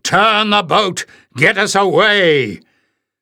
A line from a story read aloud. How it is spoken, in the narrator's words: Barda roared